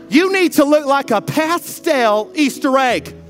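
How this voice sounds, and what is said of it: Put-on Texas church girl accent. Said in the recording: “I always go into my Texas church girl accent. ... that's my Texas church girl.”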